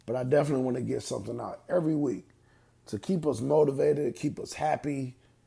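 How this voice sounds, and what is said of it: Tired, weary voice. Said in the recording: “I'm tired. You can hear it in my voice.”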